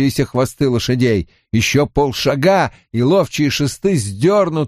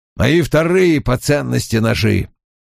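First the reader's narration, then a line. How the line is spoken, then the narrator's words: Grumbling. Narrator (Russian): проворчал Том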